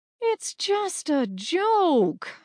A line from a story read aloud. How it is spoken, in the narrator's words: Hermes whined